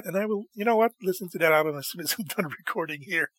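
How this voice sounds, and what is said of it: Voice starting to go hoarse. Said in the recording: “I'm starting to lose my voice ... my voice isn't really ready for such a lengthy monologue. I'm losing my voice”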